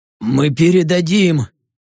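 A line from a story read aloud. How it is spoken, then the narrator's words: Hurried, pained interruption. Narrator (Russian): Торопливо вмешался еще не битый, держась за проколотый живот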